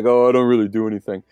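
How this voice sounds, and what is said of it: Imitates another person's voice. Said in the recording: “that was me talking and doing an impersonation of Steve ... it was spot on. I thought I was talking there for a moment.”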